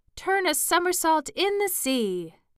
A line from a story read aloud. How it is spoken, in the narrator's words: cried the Mock Turtle